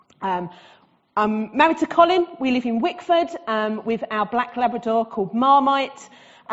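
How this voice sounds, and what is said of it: Essex English accent. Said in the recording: “as you can tell from my accent, I am Essex born and bred”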